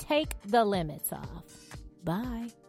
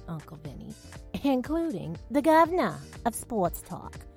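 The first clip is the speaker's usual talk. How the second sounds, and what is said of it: Brief put-on Boston accent. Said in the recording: “which I kind of think that was like a Boston accent”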